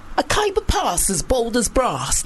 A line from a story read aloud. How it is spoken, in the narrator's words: they gasped